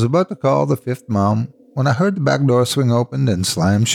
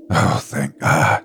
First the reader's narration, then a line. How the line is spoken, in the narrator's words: I breathed